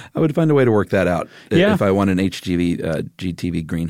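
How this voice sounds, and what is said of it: Usual voice. Nothing is said of it.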